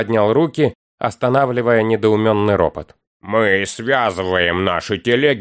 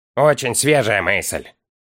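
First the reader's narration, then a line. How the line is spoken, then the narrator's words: Scoffing snort. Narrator (Russian): фыркнул Дори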